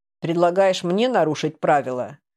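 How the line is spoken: Tired question. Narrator (Russian): устало спросил Хён

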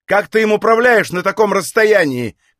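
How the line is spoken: Shouted. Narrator (Russian): крикнул

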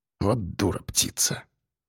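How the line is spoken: Muttering. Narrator (Russian): пробормотал Васильченко

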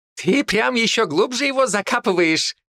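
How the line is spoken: Laughing. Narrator (Russian): хохотал Ли

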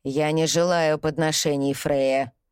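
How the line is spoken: Growl. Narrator (Russian): прорычал он

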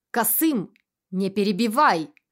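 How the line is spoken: Barked command. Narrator (Russian): рявкнул Абдулла

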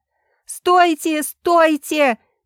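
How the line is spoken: Shout. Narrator (Russian): крикнула Ева

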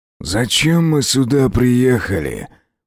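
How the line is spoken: Growl. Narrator (Russian): прорычал Аскольд

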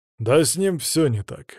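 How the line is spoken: Grumbling again. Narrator (Russian): опять заворчал Ваня

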